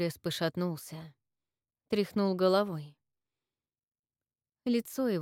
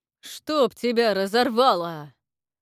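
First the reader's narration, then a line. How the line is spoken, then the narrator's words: Sudden bark. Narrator (Russian): рявкнул вдруг Бут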